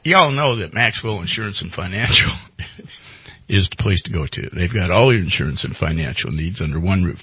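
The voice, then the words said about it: Put-on Southern drawl. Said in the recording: “Should I go into my southern? I can go into a North Carolina or South Carolina. ... I can go into a southern drawl”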